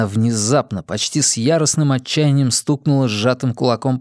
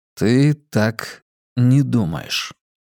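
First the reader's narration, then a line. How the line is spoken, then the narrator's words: Slow questioning. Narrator (Russian): медленно переспросил я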